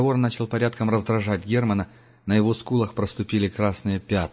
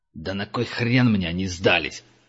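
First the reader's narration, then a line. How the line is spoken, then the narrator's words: Growling. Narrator (Russian): зарычал Кра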